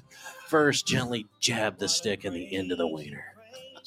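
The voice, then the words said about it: Mock sexy seductive voice. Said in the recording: “we got to work on your sexy voice”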